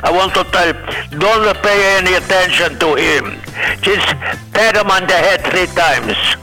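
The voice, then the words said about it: Put-on foreign accent. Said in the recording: “with another accent”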